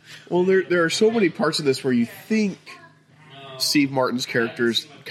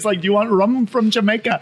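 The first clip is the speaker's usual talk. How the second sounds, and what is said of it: Bad put-on Jamaican accent. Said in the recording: “this terrible Jamaican accent”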